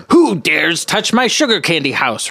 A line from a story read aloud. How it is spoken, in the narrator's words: roared the wolf again